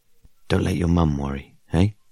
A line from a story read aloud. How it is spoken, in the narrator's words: He croaked